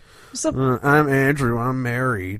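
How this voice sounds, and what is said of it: Imitates another person's voice. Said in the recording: “That's my impression of Andrew. ... That was a pretty sweet Andrew impression.”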